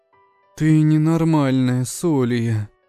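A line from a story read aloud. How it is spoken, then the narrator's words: Sad remark. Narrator (Russian): грустно заметила спортивная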